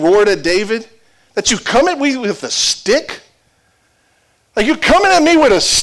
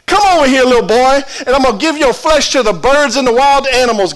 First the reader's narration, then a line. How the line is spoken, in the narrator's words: Goliath yelled at him